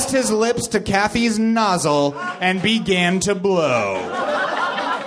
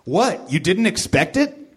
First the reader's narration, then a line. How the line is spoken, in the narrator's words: Scottie Pippen asked